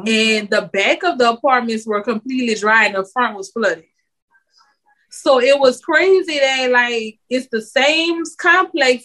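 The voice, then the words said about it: New Orleans accent. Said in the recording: “when people hear my accent, they're like, oh, you from New Orleans?”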